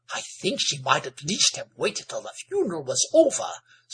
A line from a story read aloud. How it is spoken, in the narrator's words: said Amanda in a scandalized voice